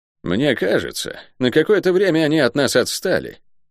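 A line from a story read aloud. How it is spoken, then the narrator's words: Curt, unpleasant male voice. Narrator (Russian): бросил невысокий, крепко сбитый мужчина с неприятным голосом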